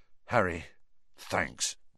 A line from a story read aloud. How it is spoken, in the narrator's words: George muttered